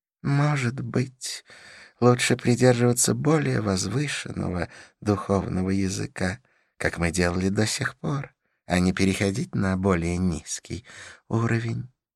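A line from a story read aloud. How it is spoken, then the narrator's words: Sigh. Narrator (Russian): вздохнул Идрис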